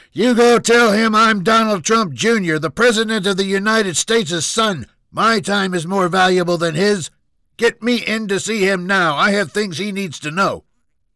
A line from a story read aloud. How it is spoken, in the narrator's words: screamed